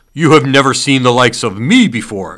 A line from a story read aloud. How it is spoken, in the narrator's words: exclaimed the spirit